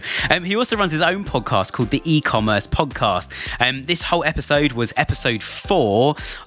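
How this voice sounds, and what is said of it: British accent. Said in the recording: “another Brit... they heard my accent and said, oh, I know somebody else from the UK”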